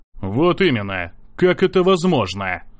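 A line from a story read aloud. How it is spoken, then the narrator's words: Sudden loud repetition. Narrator (Russian): Вдруг громко повторил собеседник слова Евы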